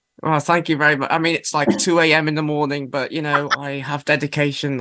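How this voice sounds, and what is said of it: British accent. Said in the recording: “Is your accent? Are you from the UK?”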